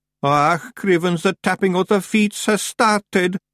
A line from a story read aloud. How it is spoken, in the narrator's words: moaned Daft Willy